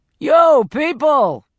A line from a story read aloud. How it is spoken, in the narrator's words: bellowed, Philly style